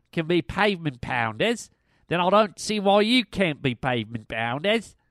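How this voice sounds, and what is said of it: Bad put-on Australian accent. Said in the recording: “my Australian listeners ... that horrific accent”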